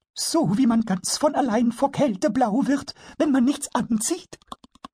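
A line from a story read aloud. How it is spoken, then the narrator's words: Master carpenter laughing. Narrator (German): Der Schreinermeister lachte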